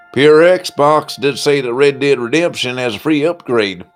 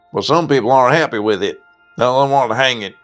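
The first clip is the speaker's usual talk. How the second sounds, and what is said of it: Put-on country accent. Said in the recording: “I'm talking in my country voice.”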